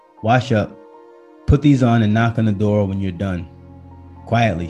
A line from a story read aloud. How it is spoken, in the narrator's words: she said